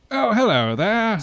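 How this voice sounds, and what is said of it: Put-on British accent. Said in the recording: “when you think of the British, what kind of accent do you think of?”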